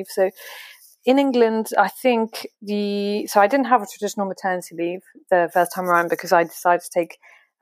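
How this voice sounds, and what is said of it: French-accented English. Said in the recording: “I hope that my English accent kind of works out for the the audience. funnily enough, I'm French”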